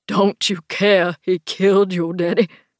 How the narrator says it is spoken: Frank asks Kenneth, his voice hoarse with grief and anger

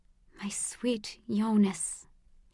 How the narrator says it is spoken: she whispered

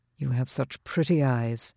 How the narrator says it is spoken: he murmured

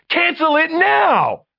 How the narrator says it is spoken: Jada shrieked

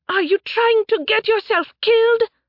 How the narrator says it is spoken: she shouted

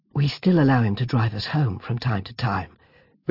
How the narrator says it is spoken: whispered Sam with a grin

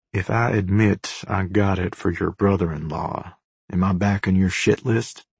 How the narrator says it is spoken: leaning in whisper

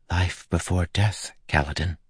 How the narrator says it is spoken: she whispered

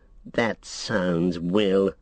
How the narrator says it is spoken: sneered Saruman, very much in the manner of Gandalf the Grey, so condescending and so very kind

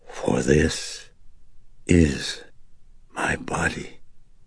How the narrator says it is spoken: he intoned with a whispered intensity

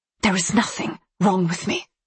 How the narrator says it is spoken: she whispered angrily

